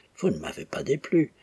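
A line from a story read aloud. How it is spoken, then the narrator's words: Murmuring dreamily. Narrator (French): murmura l'Auvergnat dans un rêve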